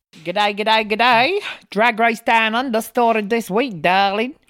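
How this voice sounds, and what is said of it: Bad put-on Australian accent. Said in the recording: “That was a really bad ... Australian accent. ... Really shit. ... Fucking shit.”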